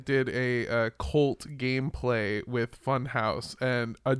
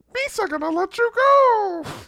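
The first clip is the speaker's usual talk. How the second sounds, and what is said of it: Jar Jar Binks impression. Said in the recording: “doing the Jar Jar voice ... Misa not sure if this accent is okay”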